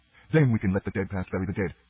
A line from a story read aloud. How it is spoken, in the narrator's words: said Maris sharply